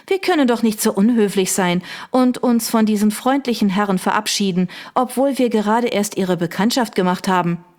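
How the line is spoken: Laughing. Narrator (German): Victoria lachte

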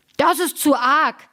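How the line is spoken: Shouting. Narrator (German): schrie der

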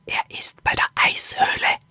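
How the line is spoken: Whispered. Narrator (German): flüsterte Axel Lilo zu

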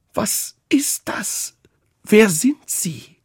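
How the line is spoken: Strained cry. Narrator (German): rief mit gepresster Stimme

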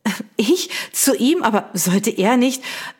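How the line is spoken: Stammering. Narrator (German): stammelte sie

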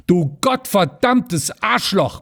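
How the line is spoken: Bellowing again. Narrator (German): brüllte Rüschenberg wieder los

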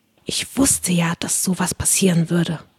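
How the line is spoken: Whisper. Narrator (German): flüsterte mir Alice Wendlaken zu

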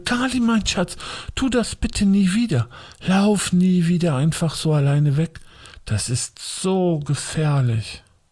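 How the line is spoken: Agitated voice. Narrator (German): sagte sie mit aufgeregter Stimme

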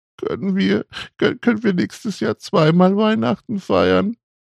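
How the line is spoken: Distraught sobbing. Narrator (German): schluchzte, immer noch fest davon überzeugt, das Fest verpasst zu haben

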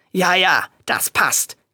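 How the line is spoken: Growled. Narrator (German): knurrte Reinaldo

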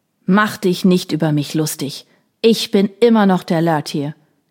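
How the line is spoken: Old man shouting. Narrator (German): schrie der alte Mann

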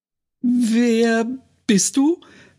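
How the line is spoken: Too loud question. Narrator (German): fragte sie zu laut

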